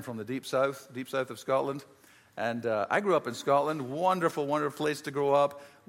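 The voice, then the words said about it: Scottish accent. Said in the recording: “I grew up in Scotland, as you can probably tell from my accent.”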